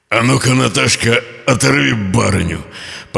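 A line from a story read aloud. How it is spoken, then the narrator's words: Command. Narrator (Russian): подал команду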